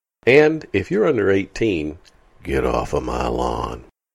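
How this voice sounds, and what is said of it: Clint Eastwood impression. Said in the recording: “my best Clint Eastwood impression.”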